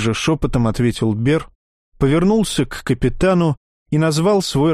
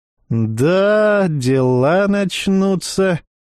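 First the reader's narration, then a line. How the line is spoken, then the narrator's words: Drawled to no one. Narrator (Russian): протянул Никифоров, ни к кому конкретно не обращаясь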